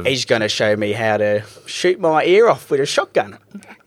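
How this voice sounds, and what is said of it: Exaggerated put-on accent. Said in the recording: “my accent's dumb. I know that.”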